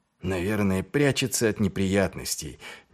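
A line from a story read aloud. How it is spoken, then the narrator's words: Displeased mutter. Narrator (Russian): недовольно пробурчал Ваймс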